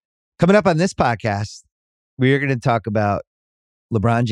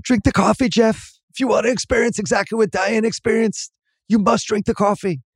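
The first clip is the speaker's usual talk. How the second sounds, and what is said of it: Imitates another person's voice. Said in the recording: “my bad Jeff Bridges imitation”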